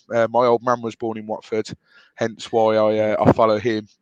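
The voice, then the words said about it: Birmingham English accent. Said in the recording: “As you can tell from this accent, I'm not originally from Watford. I am born in Birmingham.”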